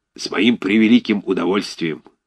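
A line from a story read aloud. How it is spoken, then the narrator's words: Hoarse bass voice. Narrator (Russian): сказал хриплым басом Рыбников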